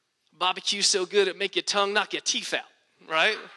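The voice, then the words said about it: Speaker's accent coming out. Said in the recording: “you see my accent coming out.”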